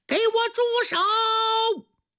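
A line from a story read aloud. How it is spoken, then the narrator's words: Urgent shout. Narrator (Chinese): 这位师傅情况非常危急，一着急大喊一声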